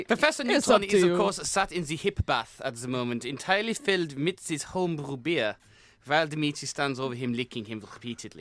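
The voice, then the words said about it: Strong German accent. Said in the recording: “your narration is a very peculiar style ... we did hire you for your strong German accent. ... it is quite a prominent accent.”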